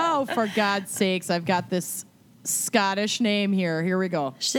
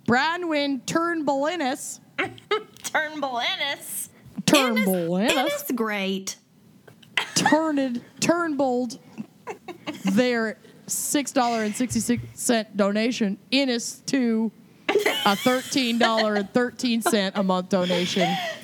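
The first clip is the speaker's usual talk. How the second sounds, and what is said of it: Put-on Minnesotan accent. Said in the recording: “I'm going to do it in a Minnesotan accent.”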